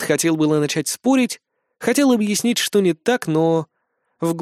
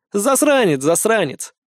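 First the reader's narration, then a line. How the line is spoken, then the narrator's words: Northerner chuckling. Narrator (Russian): хохотнул северянин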